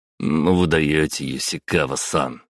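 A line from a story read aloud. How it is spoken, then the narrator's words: Short laugh. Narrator (Russian): хохотнул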